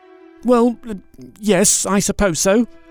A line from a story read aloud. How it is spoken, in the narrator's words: stammered Bilbo